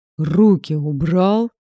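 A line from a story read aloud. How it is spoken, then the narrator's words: Growled. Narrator (Russian): Прорычала я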